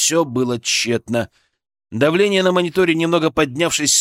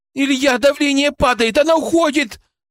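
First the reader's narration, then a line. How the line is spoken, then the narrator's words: Desperate shout. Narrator (Russian): С отчаянием в голосе крикнула Кристина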